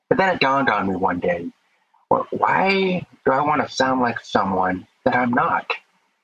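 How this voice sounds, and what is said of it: Deaf accent, slightly unusual speech. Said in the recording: “I talk with a little different accent ... they ask if I'm from Canada or if I'm from England or from Australia ... my deaf accent”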